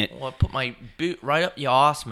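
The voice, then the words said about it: Poor put-on British accent. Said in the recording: “in the UK ... I'm not good at accents.”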